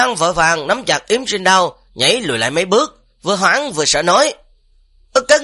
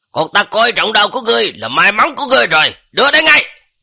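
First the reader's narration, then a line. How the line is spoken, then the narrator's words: Shout. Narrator (Vietnamese): quát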